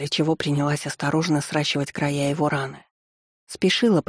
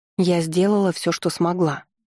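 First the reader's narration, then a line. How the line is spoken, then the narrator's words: Plain. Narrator (Russian): сказала ему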